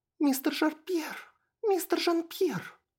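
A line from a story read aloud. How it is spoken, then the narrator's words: Squeaked. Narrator (Russian): Пискнула Лейла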